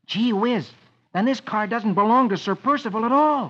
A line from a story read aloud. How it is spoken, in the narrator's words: Rusty exclaims